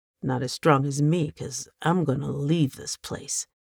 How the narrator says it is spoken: Ann mumbled

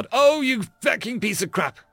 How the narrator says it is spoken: Kimber shouted

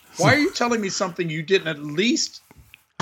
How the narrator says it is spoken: I laughed at my own joke

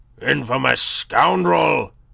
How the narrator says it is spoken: roared

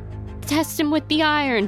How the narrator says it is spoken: she's kind of yells

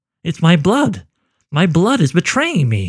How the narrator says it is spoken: he cried out

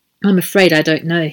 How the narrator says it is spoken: said

